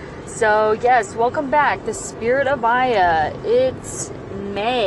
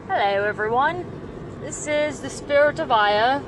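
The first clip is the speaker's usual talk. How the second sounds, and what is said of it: Weak put-on British accent. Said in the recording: “I have a British accent today. And I'm just going to stop that right now because I'm not really good at it.”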